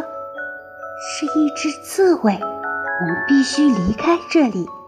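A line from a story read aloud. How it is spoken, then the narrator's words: Low voice. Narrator (Chinese): 低声说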